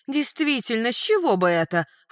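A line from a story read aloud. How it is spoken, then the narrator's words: Snort. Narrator (Russian): фыркнула Клариса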